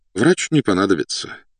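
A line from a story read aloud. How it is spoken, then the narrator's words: Sighing. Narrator (Russian): вздохнул подполковник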